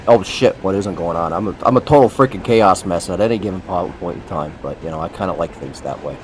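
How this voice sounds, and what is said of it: Canadian accent. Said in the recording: “We hear that lovely Canadian accent.”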